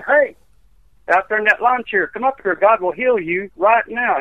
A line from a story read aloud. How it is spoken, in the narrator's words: I hollered at that man